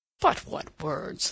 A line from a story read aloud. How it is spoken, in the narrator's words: laughed Levasseur